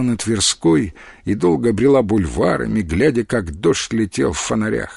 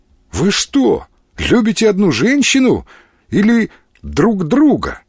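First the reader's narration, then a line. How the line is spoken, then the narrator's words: Exclamation. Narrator (Russian): воскликнула Мариана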